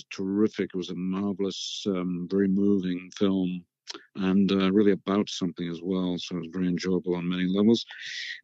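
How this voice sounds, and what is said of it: Imitates another person's voice. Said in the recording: “my Bill Nighy impression.”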